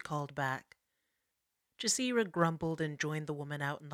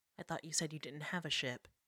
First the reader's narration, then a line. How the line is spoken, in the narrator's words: she said